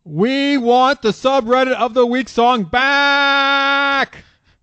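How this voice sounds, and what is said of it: Reading aloud in a yell. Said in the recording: “this is all caps from here on out. So he's yelling the rest of this.”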